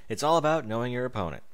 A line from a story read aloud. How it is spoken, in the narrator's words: Rainbow Dash chuckled